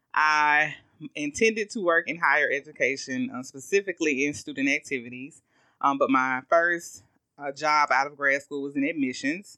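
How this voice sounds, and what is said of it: Southern US Augusta accent. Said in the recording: “you hear our Southern Augusta accents ... this is real ... the Southern accent”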